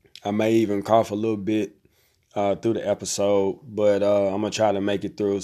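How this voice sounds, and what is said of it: Raspy voice. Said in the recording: “I've been a little bit under the weather, so my voice is a little raspy.”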